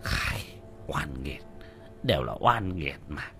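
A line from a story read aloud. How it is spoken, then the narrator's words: Muttering. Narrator (Vietnamese): Lão Quách lẩm bẩm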